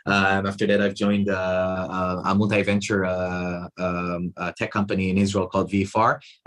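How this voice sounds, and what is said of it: Non-Australian accent. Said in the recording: “my non-Australian accent”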